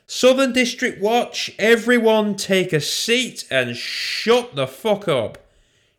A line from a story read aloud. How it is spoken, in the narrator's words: she shouted